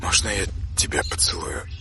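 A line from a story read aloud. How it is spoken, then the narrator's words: Overwhelmed whisper. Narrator (Russian): Прошептал он, не в силах больше себя сдерживать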